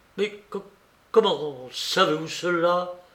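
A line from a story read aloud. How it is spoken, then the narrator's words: Stammering. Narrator (French): balbutia-t-il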